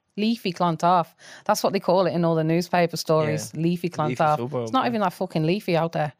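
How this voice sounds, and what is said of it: Coventry English accent. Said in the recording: “as you can probably tell from my accent, I grew up in Coventry in England”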